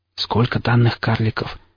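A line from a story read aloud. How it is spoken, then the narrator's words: Quiet question. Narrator (Russian): тихо спросил Блейк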